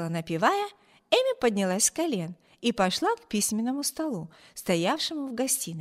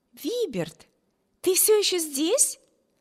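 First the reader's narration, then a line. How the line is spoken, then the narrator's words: Sister's exclamation. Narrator (Russian): воскликнула сестра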